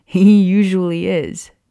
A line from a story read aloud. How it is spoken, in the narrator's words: James laughed